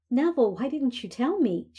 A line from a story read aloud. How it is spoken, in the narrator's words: asked excitedly